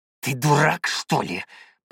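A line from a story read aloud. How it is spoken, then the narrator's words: Captain growling. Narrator (Russian): прорычал капитан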